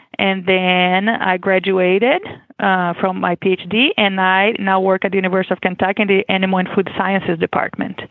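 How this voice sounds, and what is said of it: Brazilian accent. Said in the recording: “I am originally from Brazil, as you can expect with my accent.”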